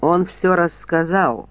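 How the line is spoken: Mumbled. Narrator (Russian): промямлил бедняга

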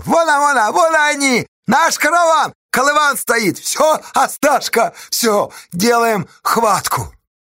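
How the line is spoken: Shouting. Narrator (Russian): Федька закричал

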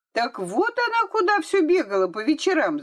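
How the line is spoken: Shouting. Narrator (Russian): закричала Вера

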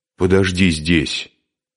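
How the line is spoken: Angry, male. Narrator (Russian): сердито сказал он

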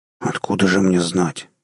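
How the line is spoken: Nervous grumble. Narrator (Russian): пробурчал тот, чувствуя, как у него на лбу выступает испарина

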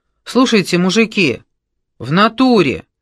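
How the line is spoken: Loud. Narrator (Russian): громко сказал Белобрысый

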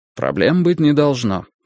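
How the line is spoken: Dry. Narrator (Russian): сухо сказал он мне

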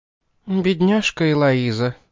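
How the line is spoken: Sighed. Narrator (Russian): вздохнула миссис Денбай

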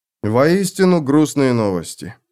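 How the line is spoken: Sigh. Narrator (Russian): вздохнул Феликс

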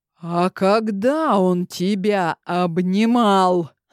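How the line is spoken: Growled. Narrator (Russian): Зарычал

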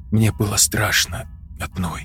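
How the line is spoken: Girl's whisper. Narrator (Russian): прошептала девушка

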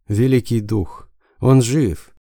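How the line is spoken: Sobbing. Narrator (Russian): Джияна постыдно всхлипнула

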